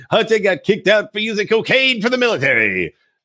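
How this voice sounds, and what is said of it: Imitates another person's voice. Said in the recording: “And not the best Trump impression there.”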